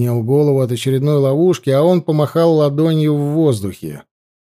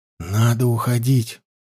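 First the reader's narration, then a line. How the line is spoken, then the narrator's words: Whisper. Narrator (Russian): прошептал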